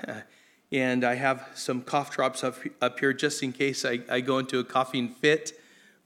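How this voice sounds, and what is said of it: Voice not fully recovered, strained. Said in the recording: “as you can tell, my voice isn't completely back”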